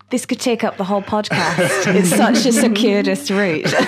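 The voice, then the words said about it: Northern Irish accent. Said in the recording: “you might be able to tell from my accent, I grew up in Northern Ireland”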